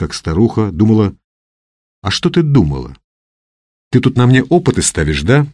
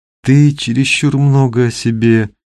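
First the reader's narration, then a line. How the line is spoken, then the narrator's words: Sleepy. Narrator (Russian): сонно начала Люда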